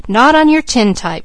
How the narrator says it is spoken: cried Mickey

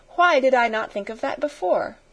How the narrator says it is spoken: she exclaimed

